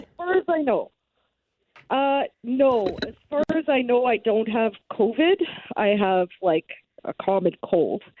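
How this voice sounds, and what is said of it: Sick, unusually deep voice. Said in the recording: “you do sound sick for sure ... working that deep voice ... My sexy deep voice.”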